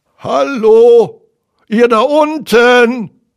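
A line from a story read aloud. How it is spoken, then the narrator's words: Voice calling from above. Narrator (German): rief eine Stimme von oben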